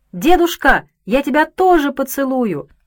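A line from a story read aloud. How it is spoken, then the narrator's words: Child shouting. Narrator (Russian): маленький Игорек крикнул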